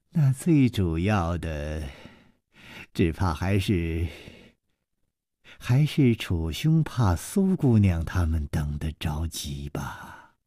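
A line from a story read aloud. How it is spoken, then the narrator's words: Sweet, smiling. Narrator (Chinese): 柳无眉却抿嘴一笑，嫣然说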